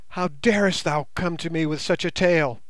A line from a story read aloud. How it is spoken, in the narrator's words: she cried